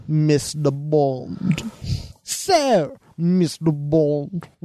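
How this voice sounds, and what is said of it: Bond villain Blofeld voice impression. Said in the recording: “what would my Blofeld impression sound like? ... all the Blofelds are so different, you just need a good take on”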